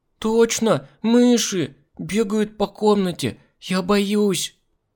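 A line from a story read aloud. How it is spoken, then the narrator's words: Whining whimper. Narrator (Russian): Продолжая конючить, она захныкала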